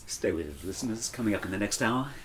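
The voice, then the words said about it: Smooth radio DJ voice. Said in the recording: “quite a DJ voice, a very smooth voice ... smooth FM”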